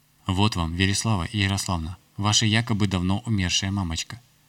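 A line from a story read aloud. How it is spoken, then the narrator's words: Slightly irritated but calm. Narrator (Russian): сказал я немного раздраженным, но все же спокойным тоном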